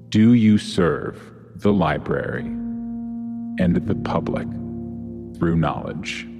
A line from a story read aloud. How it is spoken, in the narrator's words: The booming voice, now a little gentler than it had been, reverberates around this void and asks simply